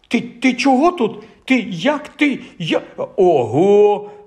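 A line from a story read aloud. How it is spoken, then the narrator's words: Astonished exclamation. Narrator (Ukrainian): вражено вигукнув Рон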